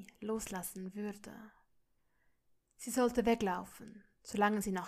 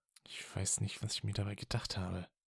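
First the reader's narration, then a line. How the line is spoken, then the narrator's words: Murmured. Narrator (German): murmelte er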